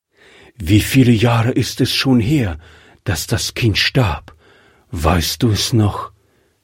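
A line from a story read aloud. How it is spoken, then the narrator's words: Plain question. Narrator (German): fragte er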